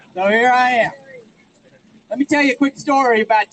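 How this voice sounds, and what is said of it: Texan accent. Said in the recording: “I'm from Texas ... where'd you get that accent?”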